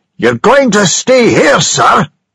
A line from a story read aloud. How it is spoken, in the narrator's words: shouted William angrily